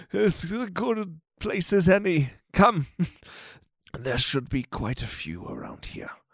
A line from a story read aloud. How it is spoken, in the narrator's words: Macundius gives a chuckle, and he's like